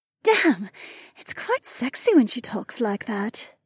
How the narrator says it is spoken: Becca purred

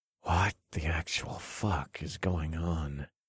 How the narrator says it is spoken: I muttered

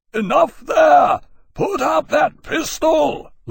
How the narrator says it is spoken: Lawrence roared at him through the speaking trumpet

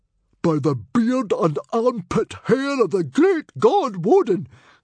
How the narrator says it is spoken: cried Stoic the Vast in astonishment

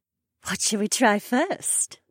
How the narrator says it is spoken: Becca asked in an amused voice

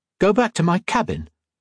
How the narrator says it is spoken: Colette exclaimed

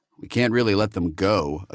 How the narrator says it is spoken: Acuna said dryly

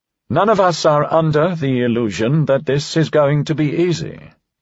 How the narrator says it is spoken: Crissell said, instantly dismayed at how quavery and ineffectual his own voice sounded

